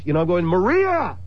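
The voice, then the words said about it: Yelling a name loudly. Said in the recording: “I'm yelling into the night”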